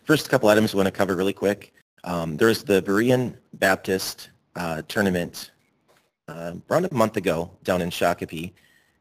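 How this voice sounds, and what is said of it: Raspy, strained voice. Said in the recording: “my voice is raspy. I pretty much lost it today.”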